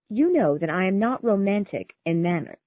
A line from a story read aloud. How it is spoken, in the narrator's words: replied Charlotte